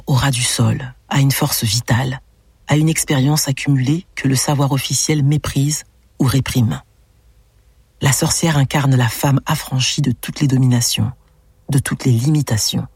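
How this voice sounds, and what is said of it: French accent, velvety captivating voice. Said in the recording (French): “elle a un accent français ... voix... Velouté ... envoûtant”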